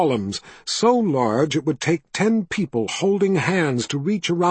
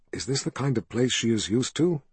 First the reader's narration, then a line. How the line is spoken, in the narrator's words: asked in a low whisper